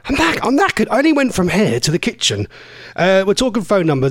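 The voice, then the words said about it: Slightly out of breath. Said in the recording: “I'm a bit out of breath”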